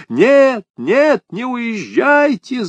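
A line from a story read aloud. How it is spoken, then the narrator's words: Desperate yell. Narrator (Russian): завопил мистер Туэйт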